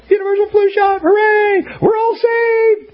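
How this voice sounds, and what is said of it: High-pitched mock-frightened voice. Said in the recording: “My voice gets really high because I get so frightened.”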